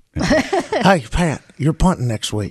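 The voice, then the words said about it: Imitates another person's voice. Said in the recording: “your Rich Rod impression ... that's uncanny.”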